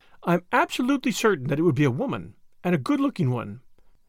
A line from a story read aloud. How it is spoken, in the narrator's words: replied Tuppence, calmly